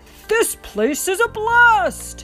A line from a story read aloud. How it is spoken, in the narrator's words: Buzz yelled